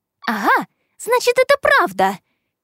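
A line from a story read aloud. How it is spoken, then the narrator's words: Woman exclaiming. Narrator (Russian): Крайне нелогично воскликнула женщина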